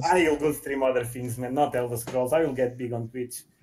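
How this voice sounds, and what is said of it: Russian accent. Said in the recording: “this voice and this Russian accent”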